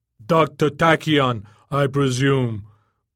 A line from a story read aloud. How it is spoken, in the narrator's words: boomed the shell speakers far above the alleys of Jokertown